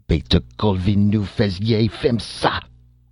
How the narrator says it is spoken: he roared

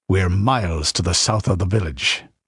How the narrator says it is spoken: grunted Conan

